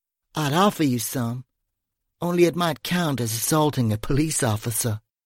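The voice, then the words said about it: Irish Kerry accent. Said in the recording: “Is that an accent I hear? ... Correct. Kerry.”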